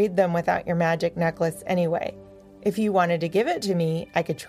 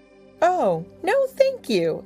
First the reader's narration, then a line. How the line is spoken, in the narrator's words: exclaimed Power Dog